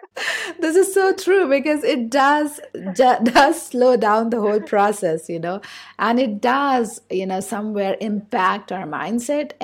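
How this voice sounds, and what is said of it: Indian English accent. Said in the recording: “with my own accent, I'm from India ... I have a certain accent”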